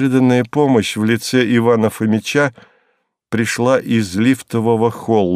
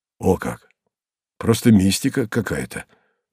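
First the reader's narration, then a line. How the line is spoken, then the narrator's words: Muttering. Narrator (Russian): пробормотал зам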